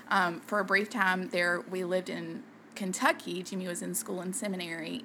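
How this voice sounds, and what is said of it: Southern US accent. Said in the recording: “you may have noticed with our southern accent, it's kind of hard to deny that we are from the South”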